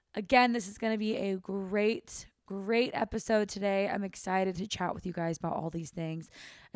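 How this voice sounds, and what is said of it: Slightly hoarse, husky voice. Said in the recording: “I feel like I'm losing my voice a little bit, so if it sounds a little sultry and different today ... I've been talking so much”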